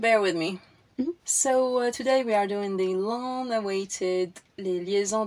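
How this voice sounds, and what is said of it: Congested, nasal, snivelly voice. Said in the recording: “sorry for my voice. I have this lingering... She has the snivels... I have a lingering cold... very snivelly... I thought it wasn't nasal enough... add up a notch of nasal”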